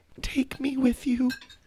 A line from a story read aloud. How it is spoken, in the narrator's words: her mom whispered